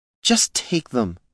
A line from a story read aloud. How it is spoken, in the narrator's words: the priest begged